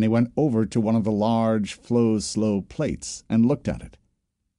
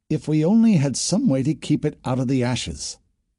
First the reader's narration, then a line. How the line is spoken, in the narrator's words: murmured Bad Turn